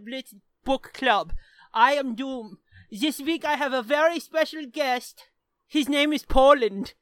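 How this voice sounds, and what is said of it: Put-on German accent. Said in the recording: “the German accent? ... this is German. I am a kind German.”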